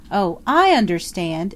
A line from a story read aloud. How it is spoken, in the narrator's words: exclaimed Anne, the light breaking upon her